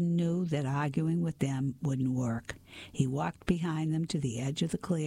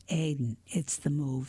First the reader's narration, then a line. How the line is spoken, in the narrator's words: said his dad softly